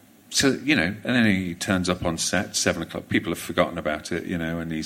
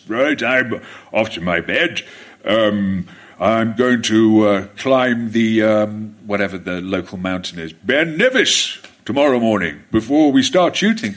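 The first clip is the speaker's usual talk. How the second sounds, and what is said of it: Imitates another person's voice. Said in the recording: “I know it's not a very good Brian Blessed impression”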